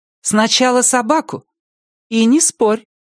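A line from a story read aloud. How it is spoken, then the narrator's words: Loud firm voice, mother. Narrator (Russian): громко и твердо сказала мать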